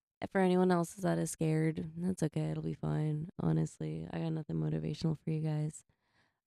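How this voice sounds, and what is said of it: Flat, lifeless, sick-sounding voice. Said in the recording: “As you can hear in my voice, I sound very NPR and with no life, literally because I'm still coughing everything out of my system”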